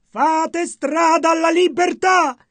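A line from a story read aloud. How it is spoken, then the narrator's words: Shouting. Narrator (Italian): gridò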